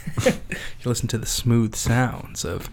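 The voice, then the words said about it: Exaggerated smooth radio announcer voice. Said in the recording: “I like when I turn my radio voice on. ... It's horrible. You have the worst radio voice ever.”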